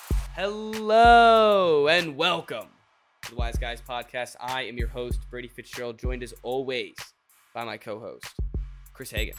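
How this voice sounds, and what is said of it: Congested, sniffly sick voice. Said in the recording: “I'm sick. Definitely sick... I have the sniffles right now. You might be able to hear it in my voice a little bit.”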